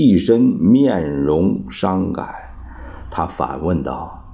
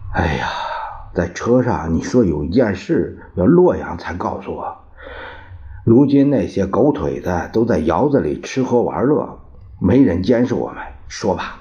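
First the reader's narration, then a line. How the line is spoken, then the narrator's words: Sighing question. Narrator (Chinese): 冯玉祥叹口气问道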